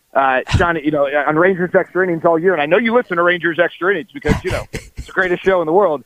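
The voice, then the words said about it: Impression of Mike Fisher. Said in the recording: “I'm going to do my per appearance Mike Fisher impersonation here for you”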